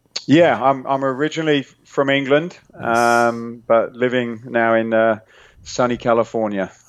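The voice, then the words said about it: British accent. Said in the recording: “you have a uh, like a British accent”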